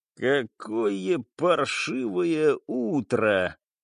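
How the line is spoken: Metallic rasp. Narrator (Russian): металлически хрипит кто-то рядом

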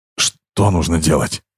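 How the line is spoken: Hoarse wheeze. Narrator (Russian): прохрипел он

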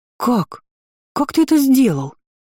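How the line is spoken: Emotional exclamation. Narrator (Russian): воскликнула более эмоциональная Иза

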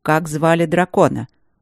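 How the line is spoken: Cold. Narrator (Russian): холодно уточнил Тандаджи

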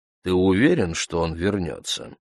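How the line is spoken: Plain. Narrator (Russian): спросил я

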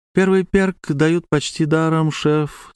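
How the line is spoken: Guilty apologetic tone. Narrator (Russian): сказала она тем виноватым тоном, которым продавец-консультант объясняет, что акция закончилась ровно после твоей первой покупки

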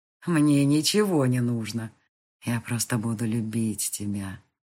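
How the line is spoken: Silky, ingratiating reply. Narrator (Russian): вкрадчиво ответил он

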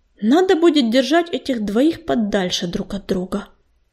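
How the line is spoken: Muttering to himself. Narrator (Russian): Бормотал себе под нос Огнезвезд

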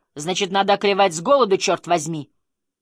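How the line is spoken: Angry shout. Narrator (Russian): Муж ударил кулаком по столу и крикнул

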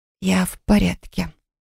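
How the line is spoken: Strained whisper, swallowing hard. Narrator (Russian): прошептала, с трудом сглатывая

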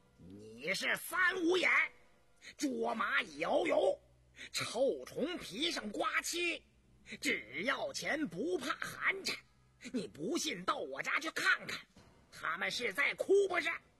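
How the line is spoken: Furious roar. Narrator (Chinese): 胤娥勃然大怒，冲胤禛吼道

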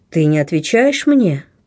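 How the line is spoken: Girl's melodious voice. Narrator (Russian): промолвила девушка таким восхитительно певучим голосом

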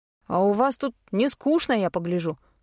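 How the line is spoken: Snorted. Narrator (Russian): фыркнул Вилл

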